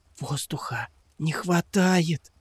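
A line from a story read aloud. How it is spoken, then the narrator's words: Whisper. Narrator (Russian): прошептала она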